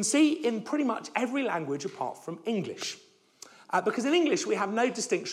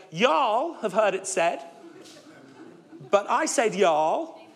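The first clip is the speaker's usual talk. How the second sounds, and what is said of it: Deliberately bad Texan accent. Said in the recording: “a Texan translation of Matthew 5 ... I'm sorry for the really bad accents”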